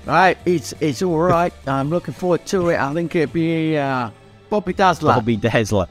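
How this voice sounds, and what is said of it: Poor attempt at Australian accent. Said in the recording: “How's your Aussie accent, mate? ... That's not Australian, is it? ... both our accents are terrible”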